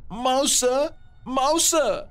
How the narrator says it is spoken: she cried

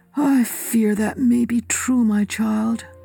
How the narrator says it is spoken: he said sadly

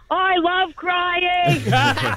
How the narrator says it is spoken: She's screaming back

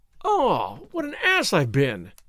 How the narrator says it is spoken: I exclaimed

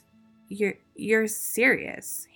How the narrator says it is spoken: he stammered as the laughter faded away

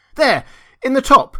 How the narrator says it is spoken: Jason shouted

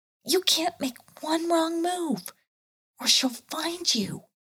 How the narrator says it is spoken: he whispered back

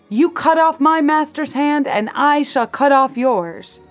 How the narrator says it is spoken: He shouted

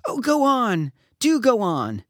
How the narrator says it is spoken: the children cried

